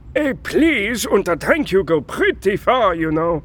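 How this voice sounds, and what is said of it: German accent. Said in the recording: “That accent. Where are you from? ... I just say Germany”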